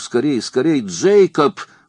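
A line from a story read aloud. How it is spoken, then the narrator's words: Frightened shout. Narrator (Russian): в страхе закричал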